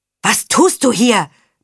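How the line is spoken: Roared. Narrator (German): brüllte Karmesin

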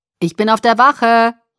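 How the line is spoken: Calling after. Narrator (German): rief Charlie mir nach

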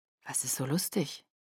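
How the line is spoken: Quiet question. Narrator (German): fragte er leise

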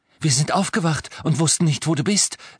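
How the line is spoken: Breathless. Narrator (German): sagte atemlos

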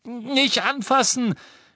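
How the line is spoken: Scream. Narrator (German): schrie Harry

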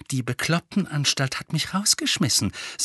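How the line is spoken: Plain. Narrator (German): sagte Harry

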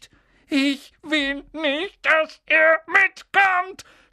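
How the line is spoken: Screaming between fake sobs. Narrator (German): schrie Dudley zwischen den markerschütternden falschen Schluchzern

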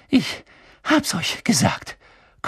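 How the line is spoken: Panting. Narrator (German): keuchte Hermine

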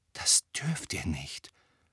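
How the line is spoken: Whispering. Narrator (German): flüsterte Hermine

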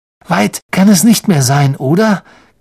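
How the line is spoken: Croaked. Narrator (German): krächzte Ron wieder

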